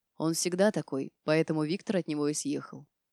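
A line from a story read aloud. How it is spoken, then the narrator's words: Tired explanation. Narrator (Russian): устало пояснил Дима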